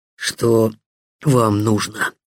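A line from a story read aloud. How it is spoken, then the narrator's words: Hoarse strangled voice. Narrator (Russian): просипел Вадим сдавленным голосом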